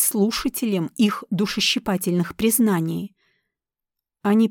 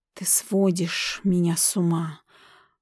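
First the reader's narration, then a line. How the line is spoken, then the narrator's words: Hissed through teeth. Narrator (Russian): прошипел сквозь зубы Рипли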